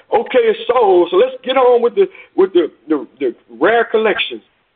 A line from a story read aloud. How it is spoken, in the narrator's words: A man shouted